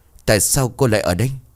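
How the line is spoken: Trembling voice. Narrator (Vietnamese): miệng của nó run rẩy

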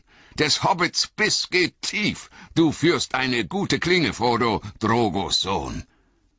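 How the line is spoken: Called out. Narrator (German): rief Aragorn

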